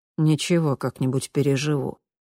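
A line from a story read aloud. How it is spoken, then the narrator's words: Grumbled. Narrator (Russian): буркнул он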